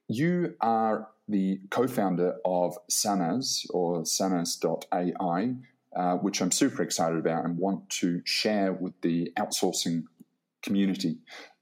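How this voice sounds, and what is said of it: Predominantly English accent. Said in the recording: “you're speaking in a predominantly English accent”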